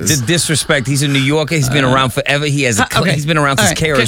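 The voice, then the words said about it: Put-on New York accent. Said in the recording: “anytime you mention New York, can you stop with the accent?”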